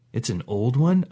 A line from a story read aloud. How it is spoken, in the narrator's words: asked